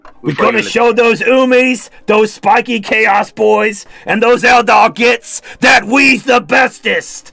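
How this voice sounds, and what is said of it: Gruff orc character voice. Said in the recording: “talking like an orc ... an orc accent, that would be actually cool because you would sound cockney, but you know, it's not working”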